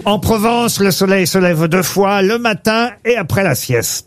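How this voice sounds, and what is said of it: Put-on Provençal southern French accent. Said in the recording (French): “Vous avez utilisé un petit accent. ... Provence. Il a l'accent.”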